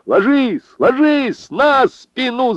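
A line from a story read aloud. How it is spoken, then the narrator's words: Shouting. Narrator (Russian): закричал Лукашин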